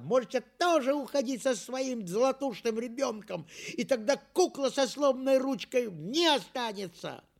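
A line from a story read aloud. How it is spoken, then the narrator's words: Little girl shouting. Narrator (Russian): моя сестренка Лёля закричала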